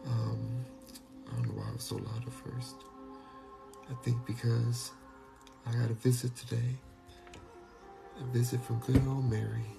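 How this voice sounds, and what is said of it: Whispering. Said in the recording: “we're going to be whispering because everybody's sleeping right now. So we're going to whisper.”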